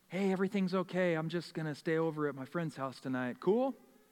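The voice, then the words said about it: Put-on careful sober-sounding voice. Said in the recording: “you try to put on your real sober voice.”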